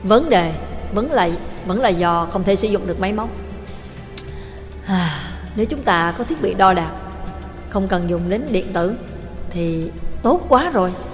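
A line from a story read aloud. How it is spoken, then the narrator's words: Sighing. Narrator (Vietnamese): Trường Lập thở dài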